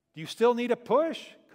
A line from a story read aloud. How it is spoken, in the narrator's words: called out the husband